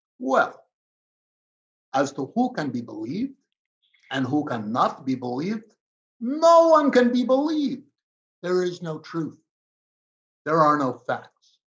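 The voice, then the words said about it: Put-on Russian accent, imitating Putin. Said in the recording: “I'll do it in a Russian accent”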